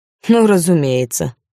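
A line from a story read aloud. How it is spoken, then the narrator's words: Mocking declaration. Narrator (Russian): насмешливо заявил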